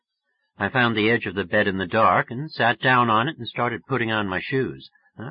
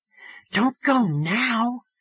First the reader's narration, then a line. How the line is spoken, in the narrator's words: Phoebe whispered